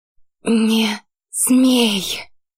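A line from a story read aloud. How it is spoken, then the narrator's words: Hoarse, curt. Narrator (Russian): Хрипло и отрывисто произнесла Лете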